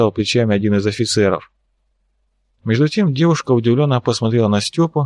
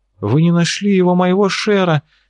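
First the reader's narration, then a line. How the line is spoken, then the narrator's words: Desperate exclamation, girl. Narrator (Russian): С отчаянием воскликнула девушка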